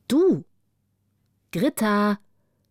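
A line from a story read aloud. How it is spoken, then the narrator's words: Calling, wild-berry voice. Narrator (German): rief eine Stimme, die wie wilde Beeres klang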